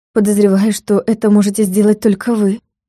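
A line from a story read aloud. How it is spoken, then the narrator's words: Sad remark. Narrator (Russian): грустно заметила Юля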